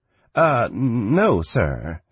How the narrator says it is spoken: Shanra stammered

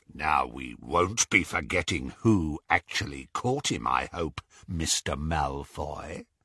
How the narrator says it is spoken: said Greyback menacingly

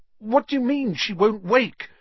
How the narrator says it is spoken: Harry said desperately

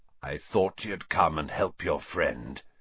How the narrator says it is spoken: he said hoarsely

